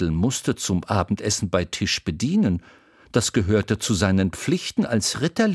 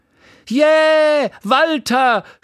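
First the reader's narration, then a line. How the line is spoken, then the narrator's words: Woman shouting from audience. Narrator (German): schrie eine Frau im Publikum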